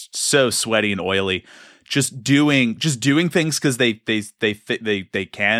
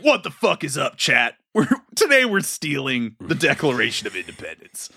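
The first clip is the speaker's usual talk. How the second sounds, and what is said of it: Bro-ish gym rat streamer voice. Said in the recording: “Why does he talk like a roided up gym goer? ... He would be like a TikTok, like gym rat streamer.”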